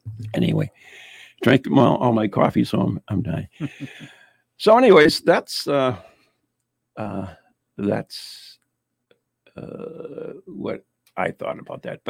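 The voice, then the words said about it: Strained, worn-out voice. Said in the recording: “my voice needs a break ... that's probably my why my voice is going”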